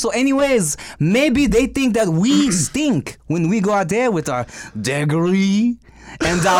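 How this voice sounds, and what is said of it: Usual voice. Nothing is said of it.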